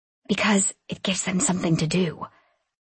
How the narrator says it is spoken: I whispered back

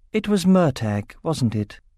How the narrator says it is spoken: asked Nasuada quietly

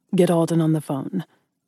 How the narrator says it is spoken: Ryder said smoothly

